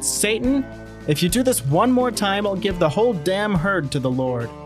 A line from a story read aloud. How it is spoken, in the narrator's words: Brother Kimball lost his temper and shouted